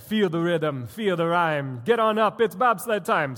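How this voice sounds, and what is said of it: Bad put-on Jamaican accent. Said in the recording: “Sorry if you're Jamaican, I just murdered your accent.”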